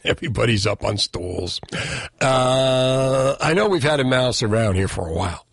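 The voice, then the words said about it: Hoarse, strained voice. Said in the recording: “I think I'm losing my voice.”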